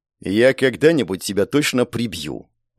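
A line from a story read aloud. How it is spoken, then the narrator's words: Snarled. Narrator (Russian): рыкнул на него эльф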